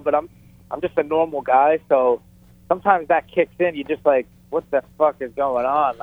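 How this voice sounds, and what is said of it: New York accent. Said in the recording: “It's that New York accent. ... East Coast”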